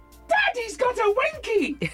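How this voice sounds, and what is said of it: Child shouting loudly. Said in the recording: “in her loudest voice,”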